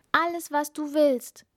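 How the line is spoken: Calling out, princess. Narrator (German): rief die Prinzessin

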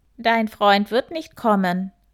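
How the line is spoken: Croaked. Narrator (German): krächzte eine Stimme hinter dem Hasen

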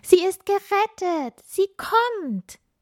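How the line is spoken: Excited calling. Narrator (German): Die ersten Sternenkinder und Schneeflocken riefen aufgeregt

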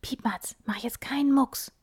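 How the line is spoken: Whisper. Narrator (German): flüstert

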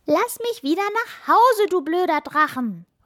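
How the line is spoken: Called out. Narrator (German): ruft Anna und zieht freche Grimassen

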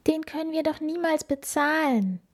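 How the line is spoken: Sighed. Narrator (German): seufzte Felice

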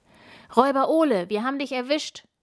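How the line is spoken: Loud call. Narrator (German): ruft Tina laut

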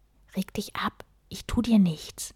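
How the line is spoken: Whispered. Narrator (German): flüsterte Sten

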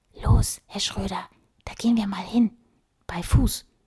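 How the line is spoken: Whispering. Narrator (German): flüsterte sie zu

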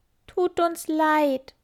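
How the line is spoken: Sad trembling lament. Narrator (German): jammern die Käfer betrübt und zittern

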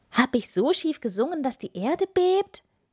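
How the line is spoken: Frightened shout. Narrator (German): rief, während sich beide fest aneinander klammerten

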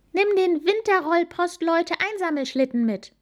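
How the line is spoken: Calling out. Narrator (German): rief Amalie

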